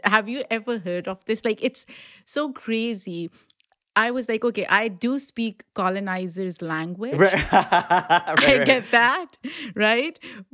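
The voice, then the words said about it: Pakistani-accented English. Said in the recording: “my accent is Pakistani accent”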